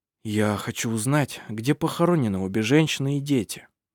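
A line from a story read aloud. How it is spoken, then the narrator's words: Soft gentle. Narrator (Russian): мягко сказал Хейке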